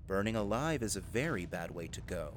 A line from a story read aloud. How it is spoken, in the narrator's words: he said, his tone one of calm certainty